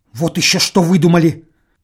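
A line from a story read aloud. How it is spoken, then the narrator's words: Angry woman's voice. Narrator (Russian): сердито сказала жена Торчакова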